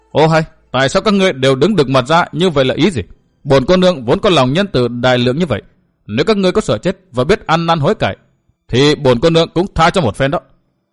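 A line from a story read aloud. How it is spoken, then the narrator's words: Angry shouted question. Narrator (Vietnamese): nàng đã giận quát hỏi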